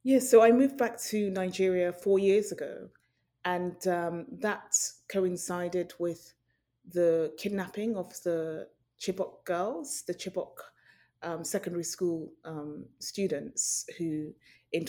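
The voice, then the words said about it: British accent. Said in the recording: “fantastic British accent”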